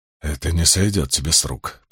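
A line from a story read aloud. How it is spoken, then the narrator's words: Muttered. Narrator (Russian): пробормотал первый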